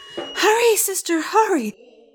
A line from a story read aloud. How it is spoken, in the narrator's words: Haru shouted